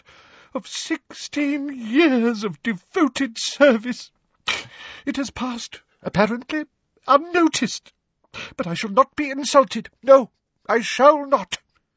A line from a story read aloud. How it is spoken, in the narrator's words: she choked